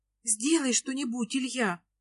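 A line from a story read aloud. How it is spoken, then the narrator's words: Frightened girl's sigh. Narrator (Russian): Испуганно вздыхает девушка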